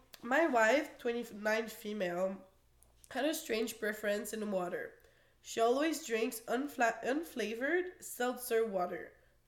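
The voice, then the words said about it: Slightly weird, sick-sounding voice. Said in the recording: “I'm sick, so that's why my voice is a little weird”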